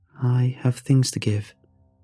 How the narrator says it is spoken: she said in a steady, measured tone

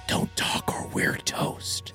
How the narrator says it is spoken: whispered real quiet

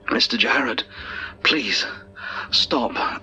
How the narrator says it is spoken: I begged

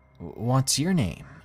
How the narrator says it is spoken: asked

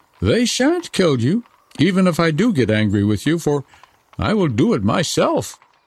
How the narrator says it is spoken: robber girl said

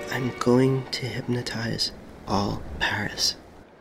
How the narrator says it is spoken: he whispered in my ear and he told me

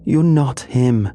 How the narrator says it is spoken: she screamed, her voice raw and trembling

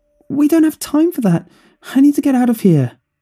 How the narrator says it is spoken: He cried

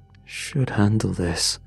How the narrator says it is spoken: he muttered

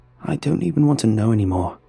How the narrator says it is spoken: sighed Daniel

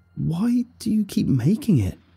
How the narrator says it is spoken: I cried, tears finally overflowing onto my cheeks

